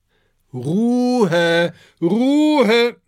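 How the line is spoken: Calling out. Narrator (German): ruft Cornelius Kaktus

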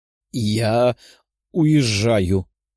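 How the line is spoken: Strained, forced out. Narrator (Russian): выдавила Кристина

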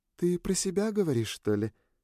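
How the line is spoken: Innocent tone. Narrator (Russian): Невинным голосом поинтересовалась Сьюн

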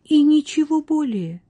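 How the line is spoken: Incredulous exclamation. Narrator (Russian): с недоверием в голосе воскликнула Катриетта

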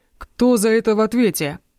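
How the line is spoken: Commanding voice echoing through hall. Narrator (Russian): воскликнул Тристан властным голосом, который разнесся по всему залу

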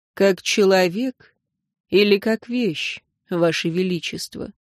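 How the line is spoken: Calm, quiet question. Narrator (Russian): Силван спросил это спокойно и тихо

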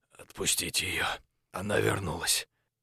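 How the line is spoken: Hoarse rasp. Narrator (Russian): прохрипел

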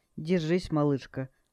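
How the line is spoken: Encouraging whisper. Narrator (Russian): ободряюще прошептал

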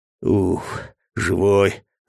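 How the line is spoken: Strained hoarse mutter nearby. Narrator (Russian): раздалось возле меня надсадное хриплое бормотание

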